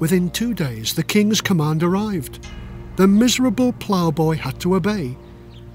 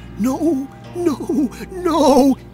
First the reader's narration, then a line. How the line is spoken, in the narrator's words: moaned